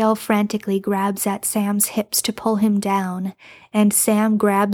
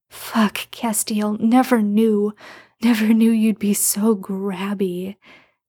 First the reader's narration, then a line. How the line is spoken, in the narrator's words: Sam moans